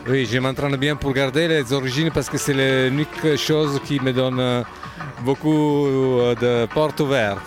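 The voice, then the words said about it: Italian accent speaking French. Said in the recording (French): “Ça s'entend bien que tu es italien d'origine... C'est un bel accent, l'accent italien.”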